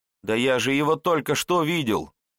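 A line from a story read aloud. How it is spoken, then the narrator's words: Youth's desperate shout. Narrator (Russian): в отчаянии закричал отрок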